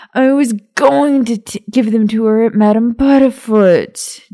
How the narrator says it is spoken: James bellowed

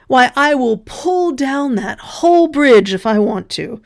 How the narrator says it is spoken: And then the young man called out

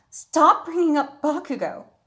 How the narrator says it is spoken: shouted

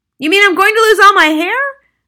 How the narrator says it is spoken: the husband yelled

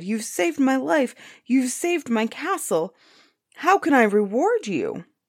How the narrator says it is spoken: the giant cried

